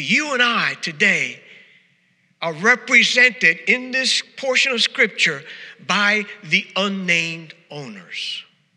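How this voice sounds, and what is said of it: New York accent. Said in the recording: “they would make fun of me and my accent. But I am pronouncing it correctly. Midwesterners don't know how to pronounce it correctly. But New Yorkers, we know the proper English.”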